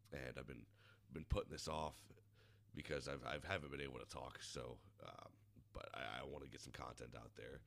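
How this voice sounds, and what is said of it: Hoarse, worn-out voice. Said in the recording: “Excuse me, I'll be sniffling... my voice is about fucking shot”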